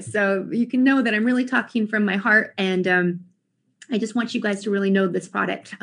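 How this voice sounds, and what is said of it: Teary, emotional voice. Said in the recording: “I'm getting teary-eyed.”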